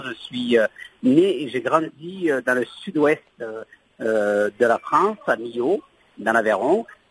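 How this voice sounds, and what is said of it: Sing-song regional French accent. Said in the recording (French): “mon petit accent chantant”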